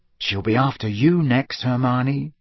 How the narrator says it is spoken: said Ron in a low and worried voice

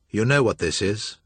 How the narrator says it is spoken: Joshua York said flatly to Damon Julian

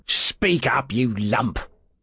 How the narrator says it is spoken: growled Fettes, leaning menacingly

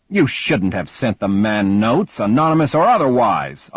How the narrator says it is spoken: Uncle Al said sharply

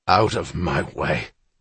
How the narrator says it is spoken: Needleman rasped

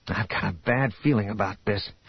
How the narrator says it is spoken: Han mumbled

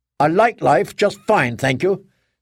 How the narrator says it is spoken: Candling snapped

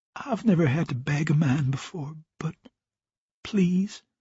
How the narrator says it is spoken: she murmured into his ear

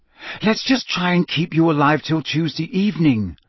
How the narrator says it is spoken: she said desperately

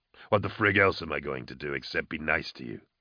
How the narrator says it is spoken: Vorna chuckled

